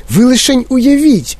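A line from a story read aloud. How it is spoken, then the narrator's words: Exclaimed. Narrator (Ukrainian): вигукнув містер Вонка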